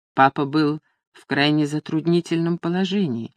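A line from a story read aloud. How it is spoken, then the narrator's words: Calm. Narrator (Russian): спокойно ответила Люсинда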